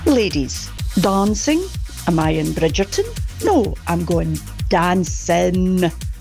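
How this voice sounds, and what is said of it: Slight Scottish accent. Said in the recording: “A little bit of a Scottish twang”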